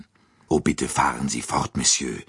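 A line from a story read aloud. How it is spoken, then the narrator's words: Plain. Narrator (German): sagte Dr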